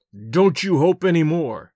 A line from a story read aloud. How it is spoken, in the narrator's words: I growled